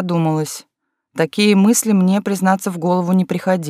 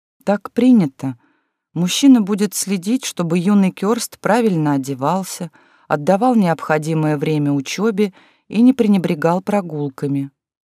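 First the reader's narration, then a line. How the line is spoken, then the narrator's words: Sighing reply. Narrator (Russian): Кёрста вздохнула и ответила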